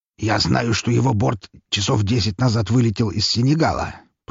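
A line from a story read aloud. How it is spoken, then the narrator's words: Muttered. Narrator (Russian): пробормотал князь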